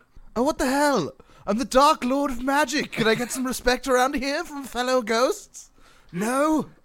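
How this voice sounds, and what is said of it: Character accent drifting into an impression. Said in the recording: “My accent is slowly becoming Boris Johnson.”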